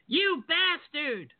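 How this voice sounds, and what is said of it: Imitates a cartoon character's voice. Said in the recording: “in the immortal words of one of the South Park guys ... That was actually a pretty solid impersonation right there”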